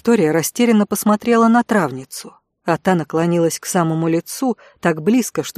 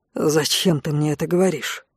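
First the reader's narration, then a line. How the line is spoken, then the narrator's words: Barely audible question. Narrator (Russian): в третий раз едва слышно спросил Конт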